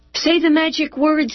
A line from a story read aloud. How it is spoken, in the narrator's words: called out